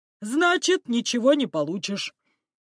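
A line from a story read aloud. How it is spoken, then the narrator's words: Fat man laughing. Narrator (Russian): рассмеялся толстяк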